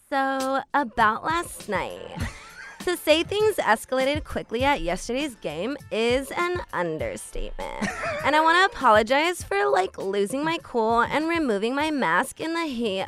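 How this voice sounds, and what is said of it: Stereotyped white girl voice. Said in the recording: “in your white girl voice”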